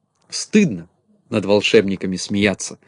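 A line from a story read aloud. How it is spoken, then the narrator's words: Stern. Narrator (Russian): строго сказала Кнопочка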